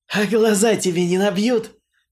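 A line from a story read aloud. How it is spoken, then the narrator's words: Loud amused laughter. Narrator (Russian): захохотал в голос, вспомнив мою боевую раскраску после посещения торгового острова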